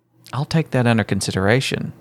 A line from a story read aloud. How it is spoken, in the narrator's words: Libby said solemnly